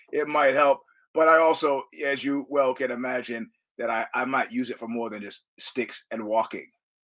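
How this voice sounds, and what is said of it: Hoarse voice. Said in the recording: “after the Oxbow show, which is why I'm hoarse.”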